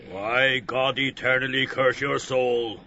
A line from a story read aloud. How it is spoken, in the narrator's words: Ben Dollard growled furiously